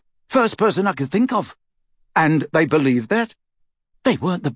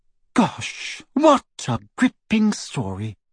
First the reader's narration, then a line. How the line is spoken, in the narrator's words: Hermione said in the lofty voice she adopted when wishing to wound